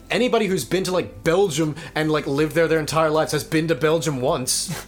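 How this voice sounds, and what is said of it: Weird partly Australian-sounding accent. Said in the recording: “my voice makes me a fucking freak of nature ... It's not fake, though. Like, I've been to Australia. ... It's a weird accent.”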